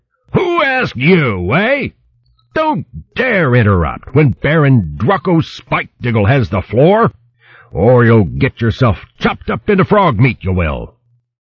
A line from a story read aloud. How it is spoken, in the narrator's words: the big hedgehog roared